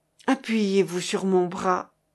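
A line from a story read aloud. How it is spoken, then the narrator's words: Plain. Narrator (French): dit-elle à Ascoff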